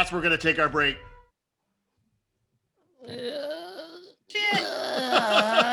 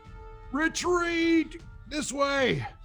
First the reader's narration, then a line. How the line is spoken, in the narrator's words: use my verbal to yell